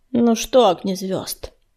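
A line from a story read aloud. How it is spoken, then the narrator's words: Cold question. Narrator (Russian): холодно сощурился он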